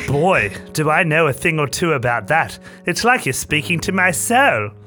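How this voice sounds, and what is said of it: Very British accent. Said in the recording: “I have a very British accent.”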